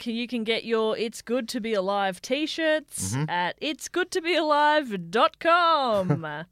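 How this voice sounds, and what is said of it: Announcer voice. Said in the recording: “Don't know why I've gone immediately into this kind of announcer voice, but I'm stuck in it.”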